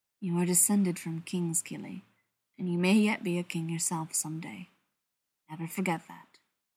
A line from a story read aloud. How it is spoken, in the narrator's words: quietly said